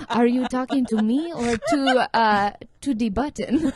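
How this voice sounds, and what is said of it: Put-on French accent. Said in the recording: “That's my French accent. ... really good.”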